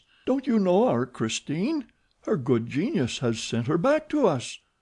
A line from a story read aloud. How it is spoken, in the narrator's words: exclaimed Mama Valerius